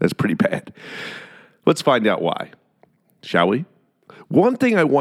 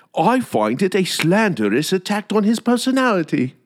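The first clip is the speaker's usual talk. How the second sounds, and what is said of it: Put-on British accent. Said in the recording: “let's do it in a British accent.”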